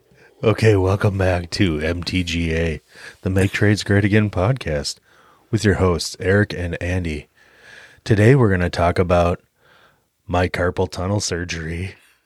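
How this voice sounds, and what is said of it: Imitating an NPR radio host. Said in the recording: “That's NPR. All you can muster. ... I tried to do my best NPR impression”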